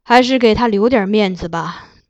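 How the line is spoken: Sighing after thought. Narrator (Chinese): 金上想想，最后叹道

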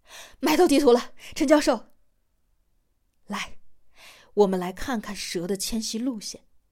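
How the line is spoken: Breathless shouting. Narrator (Chinese): 小张气喘吁吁的 嚷道

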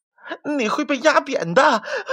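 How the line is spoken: Breathless. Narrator (Chinese): 他喘了一会儿，才说道

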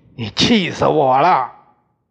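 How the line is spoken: Roar. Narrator (Chinese): 我大吼一声

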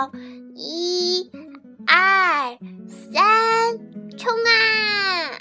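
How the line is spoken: Chicks shouting in unison. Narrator (Chinese): 小六子、小胖墩儿、鼻涕虫、小刺头、娇气包，还有好多好多的小鸡，憋足了劲儿，齐声喊道

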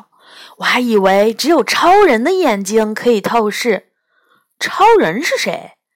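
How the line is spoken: Admiring. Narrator (Chinese): 我赞叹道

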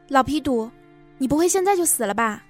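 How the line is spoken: Shout. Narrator (Chinese): 我大叫

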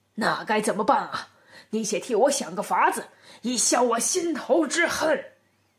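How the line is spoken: Angry, through gritted teeth. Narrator (Chinese): 庞吉不禁咬牙切齿，气愤地向廖天成道

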